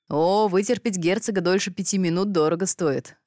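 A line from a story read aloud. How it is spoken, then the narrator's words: Chuckling monarch. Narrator (Russian): хохотнул монарх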